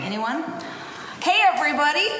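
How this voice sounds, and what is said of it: Odd put-on accent. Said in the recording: “I don't know what accent that was, and I'm embarrassed that I repeated it”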